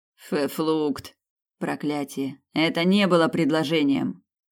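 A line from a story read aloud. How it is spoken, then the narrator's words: Grumbled. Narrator (Russian): пробурчал Снейдер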